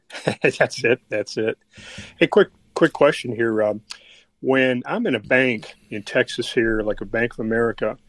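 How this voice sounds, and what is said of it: Texas twang accent. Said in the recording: “I get that Texas twang when you open your mouth”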